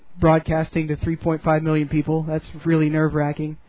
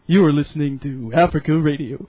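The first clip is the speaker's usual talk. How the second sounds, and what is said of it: Mock radio announcer voice. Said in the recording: “I got to work on my radio voice”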